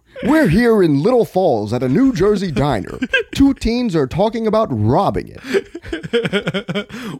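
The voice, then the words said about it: Impression of John Quiñones. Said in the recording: “my boy John Quiñones ... You just fucking ethered me on that impression. Oh, you did a way better job.”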